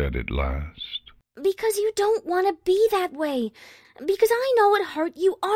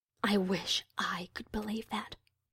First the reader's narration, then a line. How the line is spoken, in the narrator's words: Luna said softly